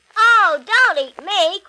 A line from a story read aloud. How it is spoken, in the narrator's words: cried the middle-sized billy goat Gruff